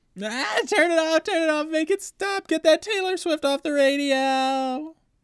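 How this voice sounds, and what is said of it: Screaming little brother character voice. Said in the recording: “That's a good impression. ... I'm sure that's what her brother sounds like, exactly.”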